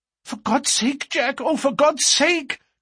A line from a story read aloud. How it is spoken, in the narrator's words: cried poor, distracted Etty